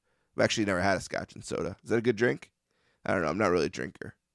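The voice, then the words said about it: Slurred, mumbling speech. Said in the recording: “I am mush mouth. I am the biggest mush mouth in the history of North-South Connection today. I'm tripping on my tongue, talking like a lunatic.”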